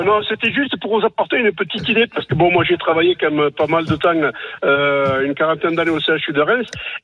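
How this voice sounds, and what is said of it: Regional French accent. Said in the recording (French): “avec mon accent, c'est pas évident”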